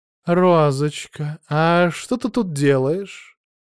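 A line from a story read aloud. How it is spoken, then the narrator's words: Affectionate voice. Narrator (Russian): Ласковый голос Олимпии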